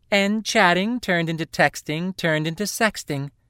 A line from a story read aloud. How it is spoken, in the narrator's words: Elamni said brightly